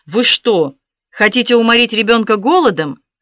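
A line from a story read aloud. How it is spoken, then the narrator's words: Thundering voice. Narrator (Russian): прогремел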